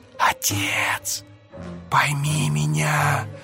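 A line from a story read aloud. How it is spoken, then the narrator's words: Girl's tender whisper. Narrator (Russian): шептала девочка, на лице ее проступила нежность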